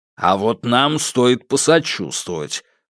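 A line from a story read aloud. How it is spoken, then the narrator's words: Grumble. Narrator (Russian): проворчал Сидоров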